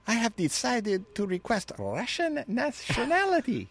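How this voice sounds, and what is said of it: Attempted female French accent. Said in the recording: “That was the wrong accent ... It's close. That's good ... I've never done a female French accent in my life”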